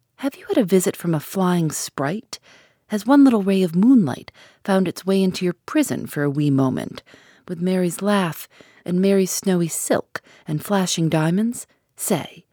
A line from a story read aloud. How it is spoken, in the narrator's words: with a glance in which coyness struggled with pride, she laughingly cried